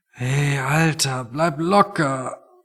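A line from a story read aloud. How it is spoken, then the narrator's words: Quiet, sensitive to noise. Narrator (German): meinte Toni und sprach leise, weil jedes Geräusch einfach noch zu viel für ihn war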